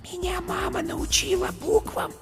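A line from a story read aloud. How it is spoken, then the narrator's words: Small creature whispering. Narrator (Russian): шепотом сказала зайка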